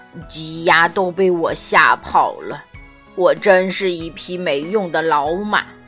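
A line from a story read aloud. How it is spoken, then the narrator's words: Sighing. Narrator (Chinese): 哈利叹了口气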